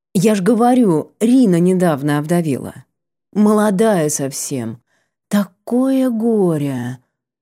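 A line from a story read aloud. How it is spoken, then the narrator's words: Languid sigh. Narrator (Russian): Вздохнула Нара Дарн, но не печально, а как-то томно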